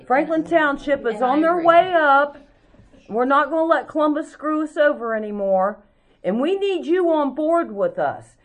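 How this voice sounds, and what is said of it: Loud, passionate yelling. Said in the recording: “I'm not yelling at you. I am, but... I'm passionate... Been told I was feisty.”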